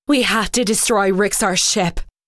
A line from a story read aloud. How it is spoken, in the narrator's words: she shouted